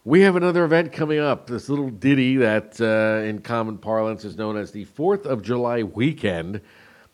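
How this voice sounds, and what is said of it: Smooth, sultry late-night radio voice. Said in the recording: “put on my Quiet Storm voice. ... My baby-making voice”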